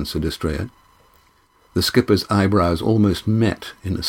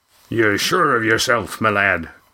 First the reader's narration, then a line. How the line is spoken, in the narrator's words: said Roaring Jack grimly